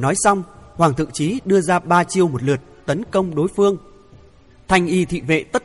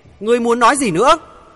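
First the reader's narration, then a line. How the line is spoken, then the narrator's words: Near shouting. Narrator (Vietnamese): Hoàng Thượng Chí nói như hét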